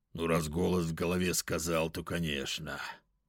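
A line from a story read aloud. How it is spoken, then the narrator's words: Grumbling mutter. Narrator (Russian): пробурчал Листозар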